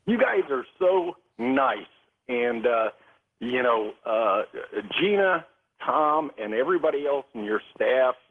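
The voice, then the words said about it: Choked up, emotional voice. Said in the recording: “I'm getting a little choked up here”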